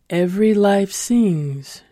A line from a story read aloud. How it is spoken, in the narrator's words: she intoned